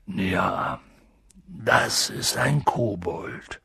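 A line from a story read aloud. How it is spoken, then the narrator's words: Quiet speech. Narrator (German): sagte Hagrid leise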